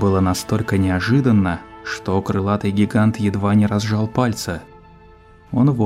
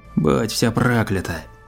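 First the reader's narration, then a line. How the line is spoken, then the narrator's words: Hoarse reply. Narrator (Russian): хрипло ответила ему жертва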